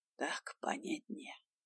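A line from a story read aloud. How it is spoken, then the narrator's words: Whisper in the ear. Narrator (Russian): прошептал он на ухо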